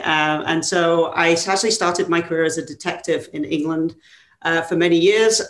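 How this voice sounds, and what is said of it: English accent. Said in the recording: “my not so California accent, I'm from England originally”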